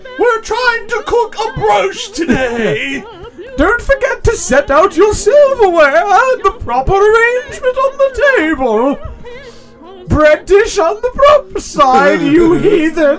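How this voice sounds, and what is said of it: High-society voice like Julia Child. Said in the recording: “She sounds like somebody who would be in like a high society skit... That or trying to do an impression of Julia Childs.”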